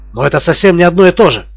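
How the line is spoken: Exclaiming. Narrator (Russian): воскликнул Смерн

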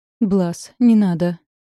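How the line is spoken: Pitiful pleading. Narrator (Russian): упрашивала самым жалостливым тоном, на какой была способна

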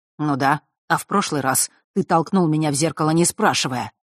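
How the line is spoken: Angry retort. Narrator (Russian): зло отозвался Фэш

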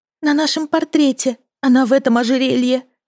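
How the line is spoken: Sobbing. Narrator (Russian): сказала Лили, всхлипнув

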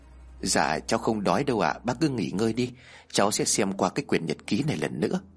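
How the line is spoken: Soft laugh. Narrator (Vietnamese): Lý liền khẽ cười

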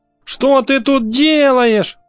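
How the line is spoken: Shouting. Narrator (Russian): закричала

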